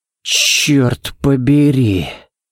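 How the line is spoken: Breathless exhale. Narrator (Russian): Выдохнул Балок

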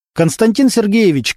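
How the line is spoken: Shouted. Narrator (Russian): крикнул Немировича старшина

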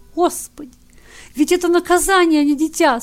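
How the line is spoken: Tearful speech. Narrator (Russian): Сквозь слезы проговорила пришедшая в себя мать

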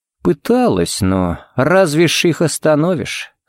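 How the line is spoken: Sighing. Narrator (Russian): Харри вздохнул

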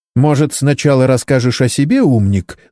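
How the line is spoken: Angry shout. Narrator (Russian): злобно крикнула ему доктор

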